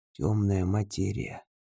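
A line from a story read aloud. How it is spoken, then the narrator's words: Quiet. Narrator (Russian): произносит тихо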